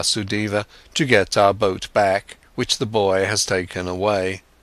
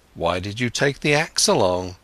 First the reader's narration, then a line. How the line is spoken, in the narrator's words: asked Siddhartha